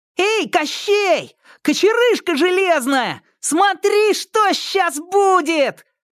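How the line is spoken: Fearless shouting. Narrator (Russian): бесстрашно кричал

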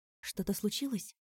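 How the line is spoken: Whispered question. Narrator (Russian): шепотом спросила я Вику

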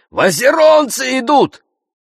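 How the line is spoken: Shouted. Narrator (Russian): крикнул

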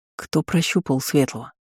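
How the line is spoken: Quiet question. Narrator (Russian): спросил тихо Джорит

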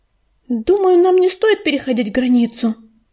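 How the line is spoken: Frightened babble. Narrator (Russian): испуганно пролепетала Листвечка

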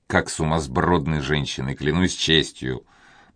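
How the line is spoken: Muttered through teeth. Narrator (Russian): пробормотал он сквозь зубы

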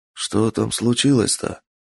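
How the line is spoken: Whispered. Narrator (Russian): шепнул Ясуо своему приятелю Микио

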